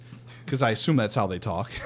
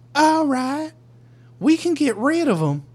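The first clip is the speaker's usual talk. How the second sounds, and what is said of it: Put-on Southern Ohio trailer-park accent. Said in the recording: “That totally sounds like Ohio... It's South Ohio... Trailer Park. That's the accent you're going for... They sound like they just smoked meth recently, and are currently looking for more. That's their accent.”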